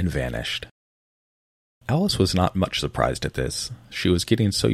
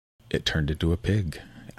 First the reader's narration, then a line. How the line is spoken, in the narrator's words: Alice quietly said, just as if it had come back in a natural way